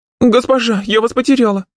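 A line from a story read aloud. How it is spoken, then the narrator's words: Frightened cry, sobbing. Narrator (Russian): Испуганно вскликнула моя личная горничная, всхлипнула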